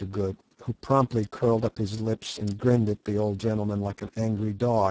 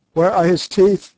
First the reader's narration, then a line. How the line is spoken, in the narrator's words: shouted